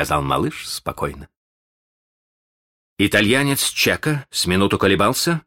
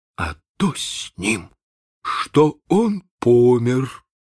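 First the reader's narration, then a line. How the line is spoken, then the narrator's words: Muffled, hollow reply. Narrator (Russian): отвечал глухо Чекко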